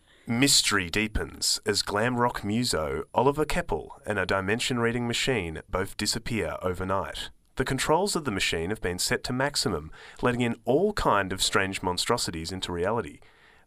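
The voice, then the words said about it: Dramatic cinematic trailer-style narration. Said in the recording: “in your best cinematic voice”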